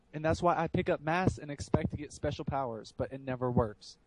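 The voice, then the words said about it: Slight Southern American accent. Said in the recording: “a little bit of a southern accent right then”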